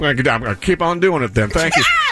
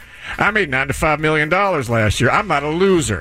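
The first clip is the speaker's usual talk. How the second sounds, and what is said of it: Dr. Phil impression. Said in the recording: “Dr. Phil ... And he sounds like this. ... My girlfriend hates my imitation. She thinks it's disrespectful and it's not good.”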